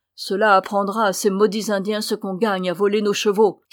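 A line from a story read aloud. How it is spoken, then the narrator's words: Shouting. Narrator (French): cria-t-il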